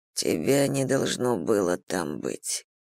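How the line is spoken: Mumbling. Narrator (Russian): пробормотал он

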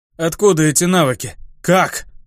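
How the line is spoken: Dull muffled voice. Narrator (Russian): глухо спросил я

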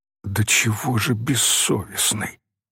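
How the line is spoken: Horrified, disgusted whisper. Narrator (Russian): шептала Софичка с ужасом и отвращением

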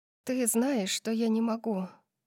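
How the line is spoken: Sighing. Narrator (Russian): вздохнула я

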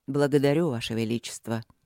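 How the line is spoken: Dry. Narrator (Russian): сухо проговорил он

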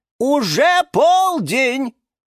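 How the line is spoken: Loud. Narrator (Russian): громко сказала Розалия Львовна

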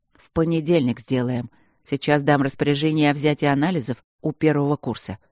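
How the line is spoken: Plain. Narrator (Russian): сказал Свидерский

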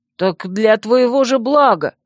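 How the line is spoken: Indignant exclamation. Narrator (Russian): возмущенно воскликнул Вемут

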